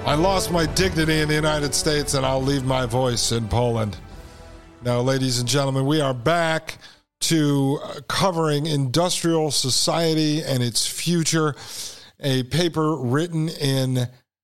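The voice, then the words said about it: Strained voice, losing it. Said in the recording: “I'm losing my voice here in Poland.”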